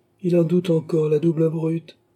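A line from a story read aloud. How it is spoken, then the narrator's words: Exclaimed. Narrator (French): s'écria Tavernet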